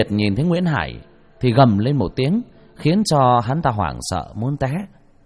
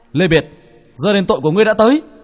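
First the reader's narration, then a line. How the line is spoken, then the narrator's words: Deep breath, shouting. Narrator (Vietnamese): Nguyễn Hải hít một hơi dài quát lên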